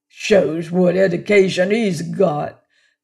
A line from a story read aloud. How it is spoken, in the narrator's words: growled Mr